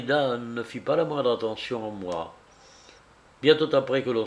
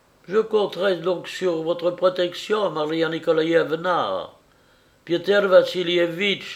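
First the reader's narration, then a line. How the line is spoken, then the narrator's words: Pleading voice. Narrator (French): dit-elle d'une voix suppliante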